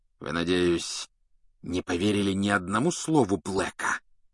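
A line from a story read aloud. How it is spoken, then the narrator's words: Hissing. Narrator (Russian): прошипел он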